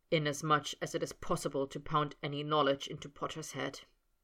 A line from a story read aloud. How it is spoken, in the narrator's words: he murmured, distracted